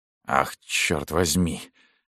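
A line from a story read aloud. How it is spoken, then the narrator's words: Whispered. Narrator (Russian): он прошептал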